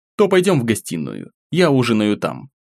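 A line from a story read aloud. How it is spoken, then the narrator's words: Calm speech. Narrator (Russian): спокойно заговорил я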